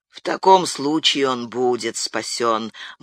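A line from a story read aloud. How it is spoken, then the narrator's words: Gloomy. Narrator (Russian): мрачно проговорила Алоиза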